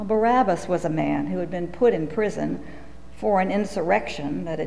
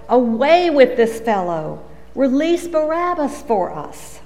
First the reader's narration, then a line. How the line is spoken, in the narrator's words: they all shouted together